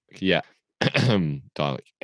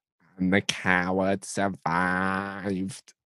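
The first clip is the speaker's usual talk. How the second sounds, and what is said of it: Raspy, croaky Dalek voice. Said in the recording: “This is my Dalek impression ... You sound like some old grandma with a terrible throat infection or something.”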